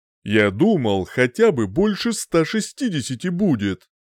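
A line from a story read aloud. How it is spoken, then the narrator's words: Grumbling. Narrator (Russian): проворчал я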